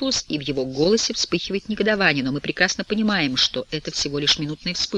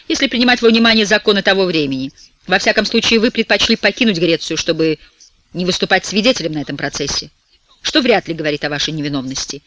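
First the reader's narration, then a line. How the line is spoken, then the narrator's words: Sharp retort. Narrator (Russian): резким тоном парирует Блаватский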